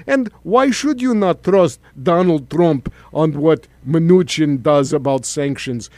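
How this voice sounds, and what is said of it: Usual voice. Nothing is said of it.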